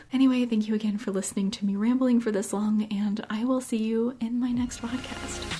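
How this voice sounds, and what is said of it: Soft, strained, almost whispering voice. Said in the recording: “I think I'm getting sick, and my voice has been struggling to continue talking, so if you hear that I'm kind of almost whispering ... I'm speaking softly”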